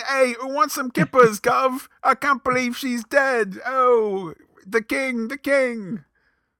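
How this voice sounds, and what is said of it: Bad put-on British accent. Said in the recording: “Her American accent isn't as bad as my British accent is”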